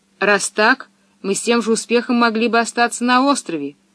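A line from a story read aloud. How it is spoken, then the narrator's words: Angry declaration. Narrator (Russian): сердито заявил Томми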